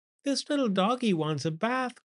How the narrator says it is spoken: cried the little girl

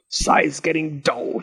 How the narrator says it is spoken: he grumbled

